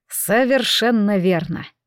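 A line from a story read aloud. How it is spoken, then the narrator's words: Dry reply. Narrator (Russian): ответил Лэрд Вайнер сухо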